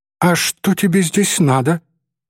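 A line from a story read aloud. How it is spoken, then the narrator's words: Trembling voice, asking. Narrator (Russian): дрогнувшим голосом спросила Софичка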